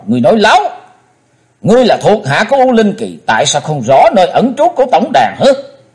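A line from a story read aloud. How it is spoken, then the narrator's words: Angry shout. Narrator (Vietnamese): chàng hét to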